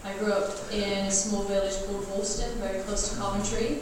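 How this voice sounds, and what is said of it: American accent. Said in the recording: “I sound American. I'm not American.”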